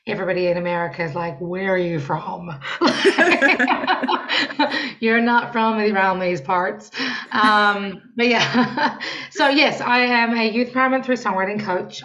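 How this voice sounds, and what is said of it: Slight New Zealand accent. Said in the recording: “if you listen a little bit, you can hear the New Zealand accent still. ... A little bit. ... Everybody in New Zealand thinks I sound super American.”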